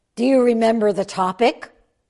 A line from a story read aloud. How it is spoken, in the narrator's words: Fuketsu asked